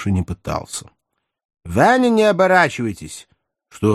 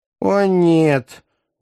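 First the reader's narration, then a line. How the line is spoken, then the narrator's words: Moaning. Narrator (Russian): застонала израильтянка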